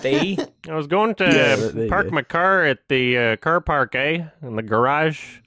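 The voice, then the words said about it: Put-on Canadian accent. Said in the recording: “That's really Canadian. ... Why don't you just talk like that normally?”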